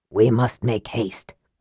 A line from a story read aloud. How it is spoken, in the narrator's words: Raceland said grimly